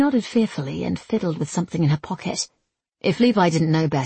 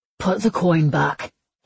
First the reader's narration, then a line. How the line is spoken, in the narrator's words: he snapped